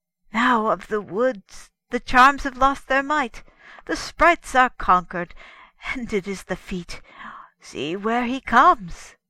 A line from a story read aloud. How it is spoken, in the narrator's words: The hermit cried